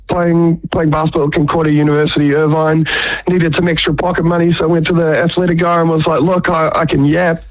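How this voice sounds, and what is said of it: New Zealand (Kiwi) accent. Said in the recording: “They loved the Kiwi accent more than the commentary, probably ... I doubt that it's just the accent”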